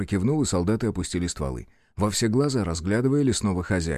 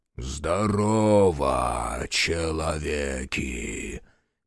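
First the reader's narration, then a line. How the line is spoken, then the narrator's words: Booming forest spirit. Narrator (Russian): Прогудел леший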